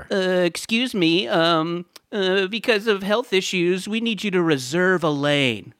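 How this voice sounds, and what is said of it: Imitates a Parks Department official. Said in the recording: “my impression of the Parks Department”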